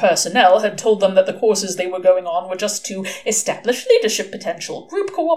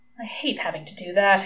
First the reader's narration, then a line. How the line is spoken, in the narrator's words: he murmured